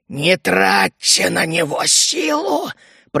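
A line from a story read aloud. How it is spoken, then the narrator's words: Hissing creature. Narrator (Russian): прошипел новоприбывший уродец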